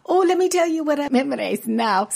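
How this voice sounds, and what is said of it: Light Irish accent. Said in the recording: “She was Irish, had a little Irish accent.”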